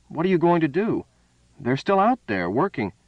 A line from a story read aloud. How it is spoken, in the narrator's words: McAllister exclaimed sharply